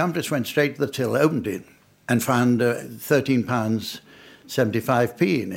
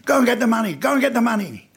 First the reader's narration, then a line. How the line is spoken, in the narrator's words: the guy shouted to his accomplice